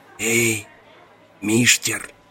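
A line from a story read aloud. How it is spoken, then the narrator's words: Whisper from below. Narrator (Russian): где-то на уровне его ребер, на 2 фута влево, кто-то не прошептал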